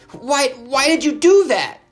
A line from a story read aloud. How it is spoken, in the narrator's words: He shouted as he scrambled to his feet